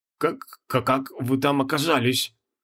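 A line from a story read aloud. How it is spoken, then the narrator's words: Babbling, faltering. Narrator (Russian): пролепетал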